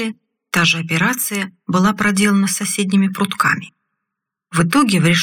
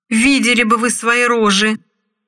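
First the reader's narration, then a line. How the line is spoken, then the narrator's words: Yelled. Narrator (Russian): заорал талантливый аналитик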